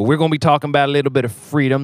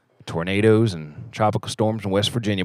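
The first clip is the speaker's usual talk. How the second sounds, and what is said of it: Put-on country guy accent. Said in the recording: “my country guy impression, ... it sounds like Andy Samberg's impression of Nicolas Cage ... So my country guy accent's kind of like that.”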